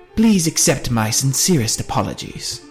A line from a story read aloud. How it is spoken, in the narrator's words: he said in his funny accent